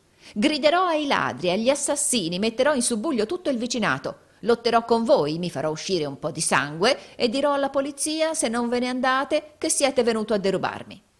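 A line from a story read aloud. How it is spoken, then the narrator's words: Horrible shriek. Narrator (Italian): rispose Gride, ritraendo dalla finestra la testa con un orribile grido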